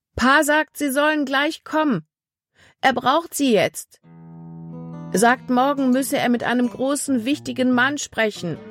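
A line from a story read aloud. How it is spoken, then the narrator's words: Calling across a stream. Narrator (German): rief ihnen vom anderen Ufer des Baches aus zu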